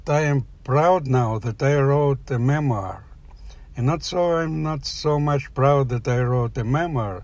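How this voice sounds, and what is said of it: Accented non-native English. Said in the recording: “maybe you didn't catch my accent”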